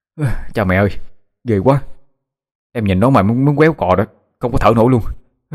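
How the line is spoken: Panting frightened speech. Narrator (Vietnamese): Thiên thở hổn hển, mặt kinh sợ nói

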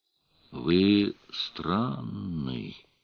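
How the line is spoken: Thoughtful drawl. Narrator (Russian): протянула она задумчиво

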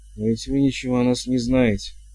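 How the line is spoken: Exclaiming woman. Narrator (Russian): воскликнула госпожа Витольдер

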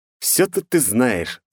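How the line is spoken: Laughing. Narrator (Russian): засмеялся

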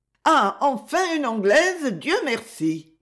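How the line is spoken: Shrill, piercing voice. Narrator (French): dit-elle d'une voix aiguë et stridente

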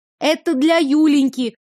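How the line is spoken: Shout. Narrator (Russian): крикнула

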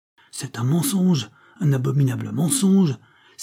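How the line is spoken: Captain's exclamation. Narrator (French): s'écria à son tour le capitaine

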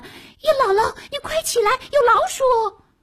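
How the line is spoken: Urgent shout. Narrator (Chinese): 笤帚疙瘩拉着姥姥喊

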